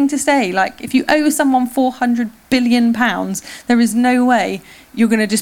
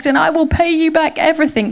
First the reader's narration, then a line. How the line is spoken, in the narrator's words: begged